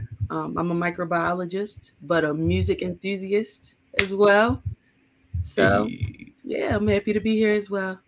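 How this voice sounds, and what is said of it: Baltimore accent. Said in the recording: “I can hear the Baltimore in your voice. The accent.”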